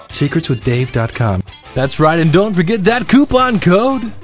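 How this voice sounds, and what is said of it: Cheesy radio announcer voice. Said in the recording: “that was my cheesy radio voice.”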